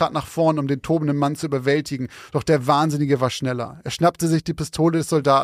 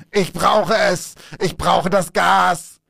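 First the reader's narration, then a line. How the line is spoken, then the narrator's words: Shouting. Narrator (German): schrie er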